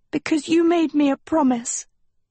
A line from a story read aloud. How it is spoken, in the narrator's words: she breathed